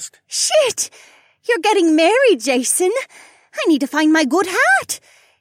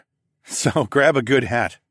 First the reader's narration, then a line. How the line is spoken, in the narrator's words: I chuckled